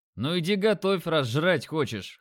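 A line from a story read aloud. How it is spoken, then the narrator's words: Scoffing. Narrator (Russian): хмыкнул я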